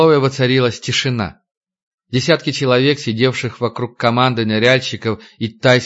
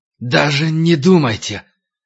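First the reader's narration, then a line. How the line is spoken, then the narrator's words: Sudden hoarse voice. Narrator (Russian): хриплый голос разорвал тишину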